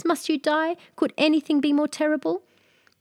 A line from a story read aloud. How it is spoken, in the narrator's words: cried the princess